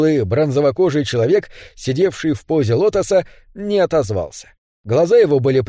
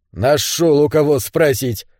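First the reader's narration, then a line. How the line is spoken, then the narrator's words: Dismissive snort. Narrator (Russian): пренебрежительно хмыкнул Мухаммед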